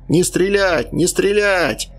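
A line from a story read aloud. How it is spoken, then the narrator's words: Old man yelling. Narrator (Russian): орал старик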